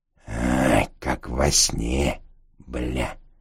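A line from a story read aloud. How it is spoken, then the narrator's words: Whisper. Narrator (Russian): прошептал он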